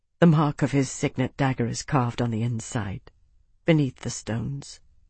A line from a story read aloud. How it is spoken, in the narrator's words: Isana said quietly